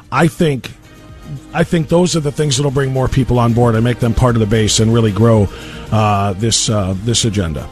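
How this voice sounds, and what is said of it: Hoarse, strained voice with coughing. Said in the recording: “I'm losing my voice as I cough my lungs out”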